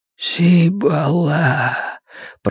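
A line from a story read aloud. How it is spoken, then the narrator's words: Whisper. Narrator (Russian): прошептал мусорный бак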